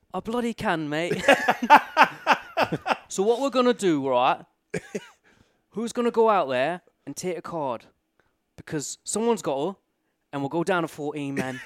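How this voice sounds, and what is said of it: Put-on English accent. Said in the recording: “You can't do it in an English accent. ... It is getting better.”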